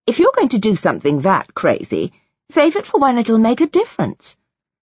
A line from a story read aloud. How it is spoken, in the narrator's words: gave a breathy, ha, an angry sound